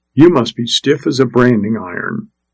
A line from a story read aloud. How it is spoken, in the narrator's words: he whispered again